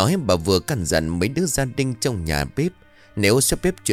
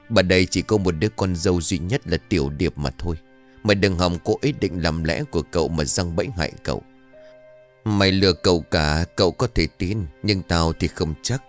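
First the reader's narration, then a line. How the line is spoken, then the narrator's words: Old woman, harsh stern voice. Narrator (Vietnamese): Bà gằn giọng nói với Thảo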